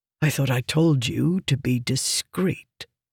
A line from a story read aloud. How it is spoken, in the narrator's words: Meridas said in a low voice